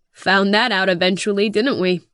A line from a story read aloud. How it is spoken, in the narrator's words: Drake chuckles